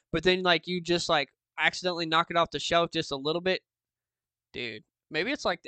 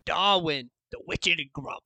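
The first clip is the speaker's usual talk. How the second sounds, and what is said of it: Put-on Australian accent. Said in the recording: “give the best Australian accent ... say Darwin in your best Australian accent”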